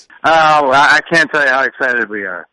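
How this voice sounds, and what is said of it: Excited voice. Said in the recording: “hear the excitement in your voice.”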